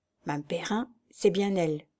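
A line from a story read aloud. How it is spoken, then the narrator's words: Murmured. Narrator (French): murmura-t-il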